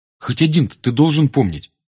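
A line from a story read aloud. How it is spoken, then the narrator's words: Irritated. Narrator (Russian): раздраженно отозвался Гарри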